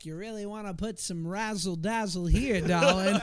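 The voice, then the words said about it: Jackie Gleason-style old-school comedian voice. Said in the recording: “doing an impression of my mom, who's doing an impression of Jackie Gleason on The Honeymooners ... old school, like the Catskills comedians from the 60s”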